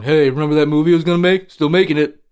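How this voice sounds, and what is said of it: Imitates another person's voice. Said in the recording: “Our J.J. Abrams impersonation are exactly the same.”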